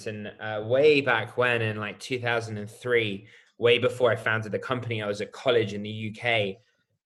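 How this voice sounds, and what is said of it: British accent. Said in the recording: “I'm British, as you can probably tell by my accent.”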